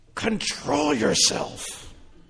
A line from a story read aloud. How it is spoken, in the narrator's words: I would hiss at him